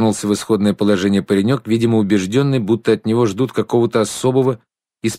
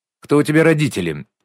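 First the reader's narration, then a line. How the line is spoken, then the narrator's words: Sharp interruption. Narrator (Russian): резко вмешалась в разговор Шнуркова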